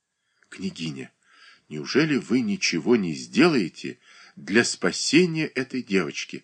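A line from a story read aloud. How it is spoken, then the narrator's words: Barely audible question. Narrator (Russian): спросила она едва слышно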